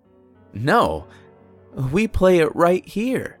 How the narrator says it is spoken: The kid laughed and replied

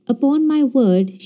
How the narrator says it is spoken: she cried

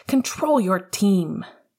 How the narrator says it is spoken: Coach was at Remus's shoulder, shouting over to the Slytherin bench

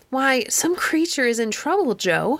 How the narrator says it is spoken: said Miss Laura cheerfully

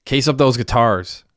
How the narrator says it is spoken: he snapped at Messi

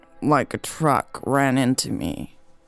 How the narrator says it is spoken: he groaned

